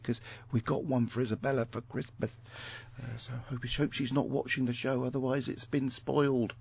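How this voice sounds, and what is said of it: Speaking quietly, hushed voice. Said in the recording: “I'm saying this quietly”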